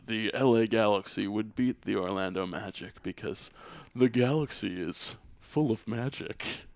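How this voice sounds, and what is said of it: Imitates another person's voice. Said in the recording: “That's a pretty good impression, I guess... Oh, it was a really good impression.”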